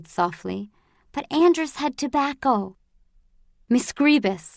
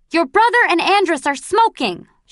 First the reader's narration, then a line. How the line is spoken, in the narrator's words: she bellowed